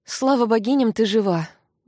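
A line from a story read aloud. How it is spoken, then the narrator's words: Breathless exhale. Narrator (Russian): выдохнула Кари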